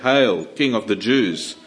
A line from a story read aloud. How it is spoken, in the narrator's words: mocking Jesus and sarcastically calling him a king, they said